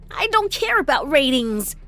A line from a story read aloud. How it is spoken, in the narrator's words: I snapped